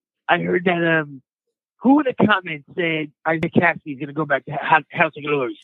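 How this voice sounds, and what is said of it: Poor imitation of another person's voice. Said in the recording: “worst Isaiah Kassidy impression I've ever heard ... it's pretty bad ... it's pretty awful”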